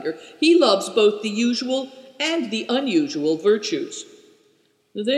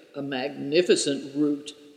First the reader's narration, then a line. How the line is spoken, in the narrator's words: muttered Good Fortune